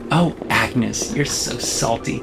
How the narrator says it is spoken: Jessica says and laughs

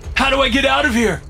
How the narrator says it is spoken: I shout, pain driving my panic

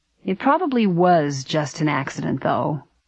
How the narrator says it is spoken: Frank said in a strained voice

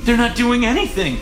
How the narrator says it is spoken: she gasped

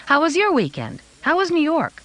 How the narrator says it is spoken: I said brightly

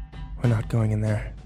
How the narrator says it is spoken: I whispered

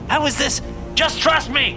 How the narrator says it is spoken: I shouted

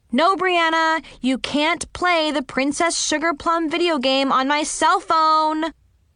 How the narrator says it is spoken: I yelled

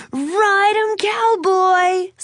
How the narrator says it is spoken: Someone yelled

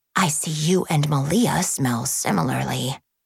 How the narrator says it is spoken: she whispered

